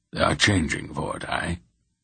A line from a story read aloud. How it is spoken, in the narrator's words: Bilgarath said gravely